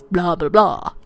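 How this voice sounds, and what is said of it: Poor Dracula impression. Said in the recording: “that was my Dracula impression, and I know it sucked, but sorry, I'm not very good at those.”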